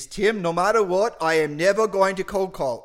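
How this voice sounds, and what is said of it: Attempted British accent sounding Australian. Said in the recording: “in a very nice, proper, British, lovely accent ... Actually, that's Australian. I can't do British.”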